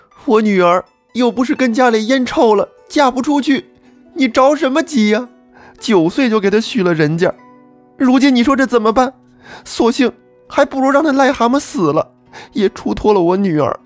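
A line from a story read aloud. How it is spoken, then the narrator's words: Tearful complaining woman. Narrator (Chinese): 朱世远的老婆柳氏，闻听女婿得了那么个病症，在家里成天是哭哭啼啼，抱怨她丈夫说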